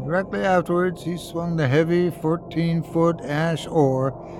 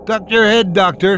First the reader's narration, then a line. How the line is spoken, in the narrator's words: Then I heard the captain shout